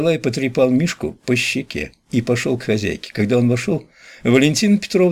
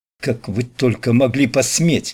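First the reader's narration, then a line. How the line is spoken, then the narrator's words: Angry. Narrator (Russian): зло проговорила она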